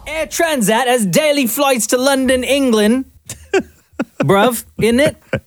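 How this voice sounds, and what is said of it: Put-on London English accent. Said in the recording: “Nice accent, Gov.”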